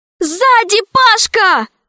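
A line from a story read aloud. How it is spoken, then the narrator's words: Woman's shout. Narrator (Russian): крикнула Алиса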